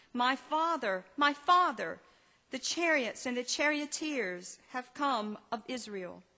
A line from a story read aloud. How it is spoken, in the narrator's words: Elijah saw it and cried out